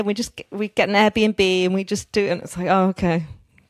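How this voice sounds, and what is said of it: English accent. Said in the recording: “I love your English accent so much.”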